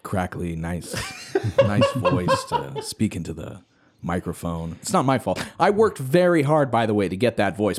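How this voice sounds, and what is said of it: Exaggerated extra deep voice. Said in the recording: “Don't do a fucking extra deep voice.”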